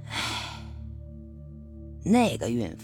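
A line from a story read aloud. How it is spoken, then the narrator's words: Sighing. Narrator (Chinese): 周炳坤叹了口气说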